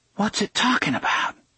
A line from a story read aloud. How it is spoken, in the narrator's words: she hissed